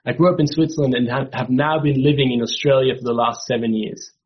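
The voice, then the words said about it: Mixed Swiss-European accent. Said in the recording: “Maybe you're wondering where this accent is coming from ... I'm originally from Switzerland. My mom is Italian. I'm married to an English, American, Irish woman, and so my accent is confused.”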